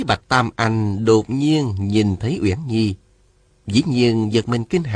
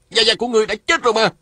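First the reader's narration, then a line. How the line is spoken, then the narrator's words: Shout. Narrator (Vietnamese): Lê Cường la lên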